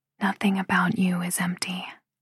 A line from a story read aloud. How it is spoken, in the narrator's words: I whisper